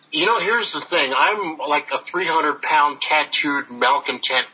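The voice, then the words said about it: American accent. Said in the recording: “I've got the American accent down here. ... a 300-pound gorilla with an American accent.”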